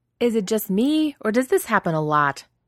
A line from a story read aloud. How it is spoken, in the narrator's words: Rodney shouts